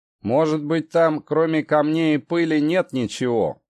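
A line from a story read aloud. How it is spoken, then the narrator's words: Muttered, sailor. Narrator (Russian): пробурчал второй матрос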